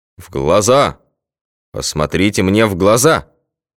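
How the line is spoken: Hypnotic bass shout. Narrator (Russian): Снова вдруг гипнотизерским басом заорал врач

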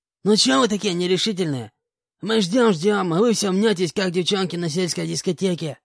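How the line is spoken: Hoarse man's voice. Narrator (Russian): хриплым голосом обратился к нам один из мужчин

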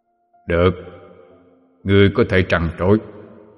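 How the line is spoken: Calm, unhurried. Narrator (Vietnamese): Diêm Vương, khẽ hé mí mắt mà nói

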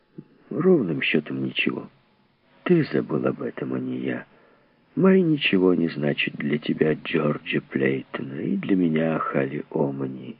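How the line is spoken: Quiet. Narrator (Russian): негромко добавил он

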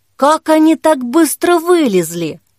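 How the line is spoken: Disbelieving exclamation. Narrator (Russian): воскликнула Кира, неверяще

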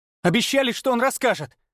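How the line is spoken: Snapping. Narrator (Russian): Марк огрызнулся

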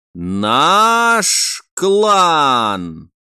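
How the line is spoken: Drawn out, smiling, old soldier. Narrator (Russian): протянул каждое слово, при этом коротко улыбнувшись старый вояка

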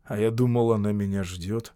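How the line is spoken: Mumbled. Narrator (Russian): пробормотал Шарп

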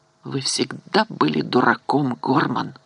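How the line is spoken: Hissing whisper. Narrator (Russian): Она свистящим шепотом произнесла

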